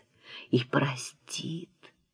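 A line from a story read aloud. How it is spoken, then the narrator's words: Whispered repeat. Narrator (Russian): повторяет шепотом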